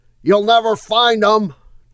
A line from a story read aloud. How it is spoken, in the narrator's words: Gerald yelled, and in a huff